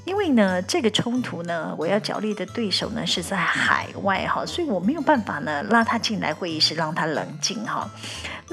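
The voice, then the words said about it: Speaking in a deliberately lowered voice. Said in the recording (Chinese): “就像我今天是特别压低的声音哈在讲话”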